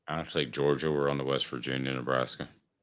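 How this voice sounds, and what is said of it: Mellow imitation of a coach's voice. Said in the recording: “your best Nick Saban impersonation ... That's going to be Nick Saban as an analyst. Okay, uh, that's pretty good that, though ... You actually did pretty good ... very like mellow when they talk”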